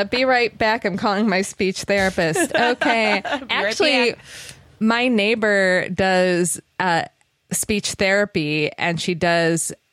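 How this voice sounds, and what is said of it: Regional accent with sharp A's. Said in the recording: “you cramming all those sharp A's into a sentence ... my accent”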